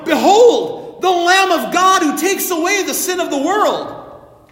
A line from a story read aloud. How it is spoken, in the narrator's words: John the Baptist who in John's Gospel cried out